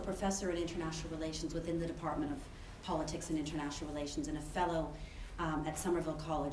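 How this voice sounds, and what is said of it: Canadian English accent. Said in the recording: “You may tell from my accent I'm not British, so I'm originally from Canada.”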